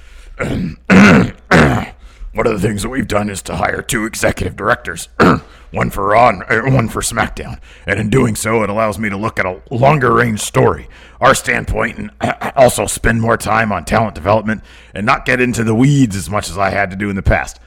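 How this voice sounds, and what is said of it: Imitates another person's voice. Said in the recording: “doing my Vince voice”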